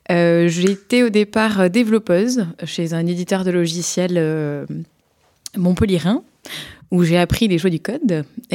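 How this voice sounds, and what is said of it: Slight southern French accent. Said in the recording (French): “d'où mon petit accent euh, sudiste”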